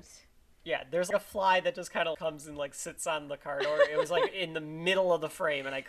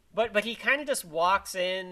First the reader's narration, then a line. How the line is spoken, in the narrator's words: he shouts again